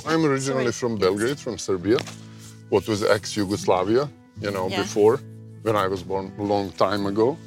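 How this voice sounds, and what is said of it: European accent. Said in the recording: “your accent, but I really feel like I've kind of stepped back into Europe”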